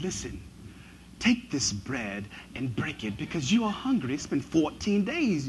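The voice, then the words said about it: Put-on British accent. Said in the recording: “all biblical characters have a British accent ... he's got this accent”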